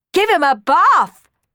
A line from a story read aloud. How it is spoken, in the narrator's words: yelled Hughie and Tina